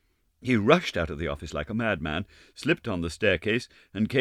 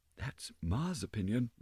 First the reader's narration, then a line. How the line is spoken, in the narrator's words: replied Meg, lowering her voice and looking about her, as though fearing lest other ears than those present might overhear